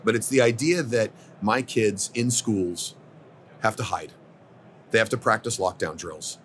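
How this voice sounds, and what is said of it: Choked-up, emotional voice. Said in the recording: “I get a little choked up”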